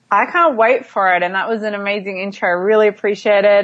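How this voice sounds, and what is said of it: Australian accent. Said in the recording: “as you can probably tell from her accent, from Down Under in Australia”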